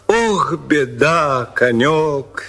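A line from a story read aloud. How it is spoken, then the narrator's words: Plain. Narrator (Russian): сказал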